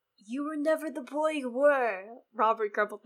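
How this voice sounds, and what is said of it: Character voice, higher than usual. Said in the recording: “That's my Robert voice ... your Robert voice is actually higher than your regular voice ... I thought I was going down an octave”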